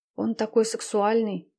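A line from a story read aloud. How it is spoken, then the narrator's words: Sighing. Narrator (Russian): вздохнула Марина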